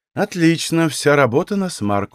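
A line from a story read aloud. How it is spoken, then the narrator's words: Sighing. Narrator (Russian): вздохнула Таника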